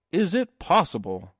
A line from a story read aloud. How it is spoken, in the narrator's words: cried Mr